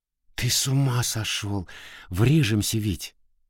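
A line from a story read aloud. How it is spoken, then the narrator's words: Whispered. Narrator (Russian): шепотом сказала она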